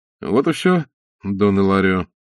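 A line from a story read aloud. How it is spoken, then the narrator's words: Calm, in Spanish. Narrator (Russian): спокойно сказал Блад по-испански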